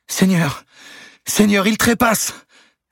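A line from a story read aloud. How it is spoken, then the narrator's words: Woman crying out. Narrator (French): s'écria-t-elle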